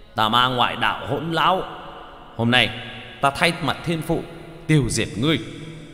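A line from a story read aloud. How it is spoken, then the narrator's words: Roaring. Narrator (Vietnamese): Bạch Hổ gầm lên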